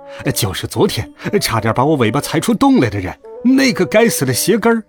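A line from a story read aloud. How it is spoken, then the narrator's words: Shouting. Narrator (Chinese): 多多叫了起来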